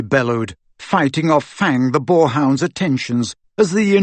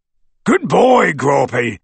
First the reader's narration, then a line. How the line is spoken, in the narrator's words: he bellowed, through the hole in the window